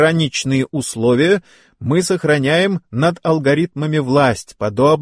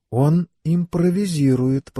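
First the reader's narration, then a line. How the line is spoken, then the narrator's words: Whisper. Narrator (Russian): прошептала Элейн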